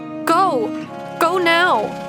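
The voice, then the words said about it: Urgent, frantic voice. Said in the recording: “Her voice was urgent, frantic.”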